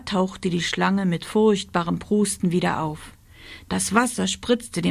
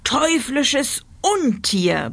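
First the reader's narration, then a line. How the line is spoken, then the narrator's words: Roar. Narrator (German): brüllte er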